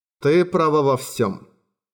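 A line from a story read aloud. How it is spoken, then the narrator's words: Tired tone. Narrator (Russian): усталым тоном произнес Лоуренс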